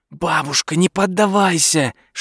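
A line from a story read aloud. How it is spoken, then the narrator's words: Whispering. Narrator (Russian): шептал Дуглас в библиотеке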